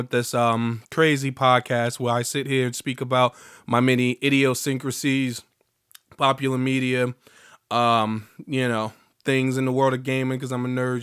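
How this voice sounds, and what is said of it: Slightly altered, unwell-sounding voice. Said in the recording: “As you can tell, still hearing my voice is slightly different because I'm still, you know, I'm on the mend.”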